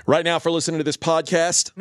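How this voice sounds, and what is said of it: Announcer-style radio voice. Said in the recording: “No, don't do it in like a radio voice. Talk to the people.”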